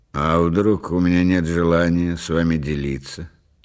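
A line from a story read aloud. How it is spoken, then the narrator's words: Calm inquiry. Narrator (Russian): спокойно осведомился Рейзнер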